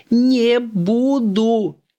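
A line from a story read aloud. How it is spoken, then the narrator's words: Shouting. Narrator (Russian): кричала Настенька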